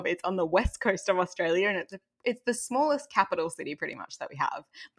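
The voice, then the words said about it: Slight Australian accent. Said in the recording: “I think I'm rapidly losing my Australian accent, but I am originally Australian ... So I think I'm somewhere in the middle.”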